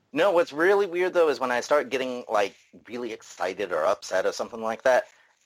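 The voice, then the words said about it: Mixed English and Southern US accent. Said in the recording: “Manchester and Tennessee. So, very messed up accent”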